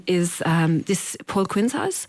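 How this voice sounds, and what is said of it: Put-on Austrian accent. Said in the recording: “this man's voice in an Austrian accent ... I'm trying to do the accent now”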